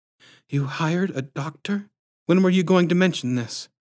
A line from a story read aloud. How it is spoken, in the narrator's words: He chuckled nervously